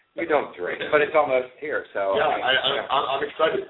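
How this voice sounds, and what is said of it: Strained, worn-out voice. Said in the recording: “My voice is shot. ... No more screaming.”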